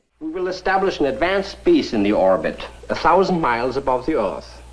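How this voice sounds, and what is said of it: Obvious German accent. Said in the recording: “Speaking with a rather obvious German accent”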